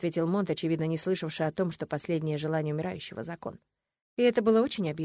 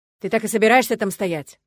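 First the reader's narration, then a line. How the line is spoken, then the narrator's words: Growling official. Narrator (Russian): рыкнул градоначальник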